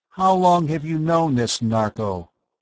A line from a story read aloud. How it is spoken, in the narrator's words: Tom asked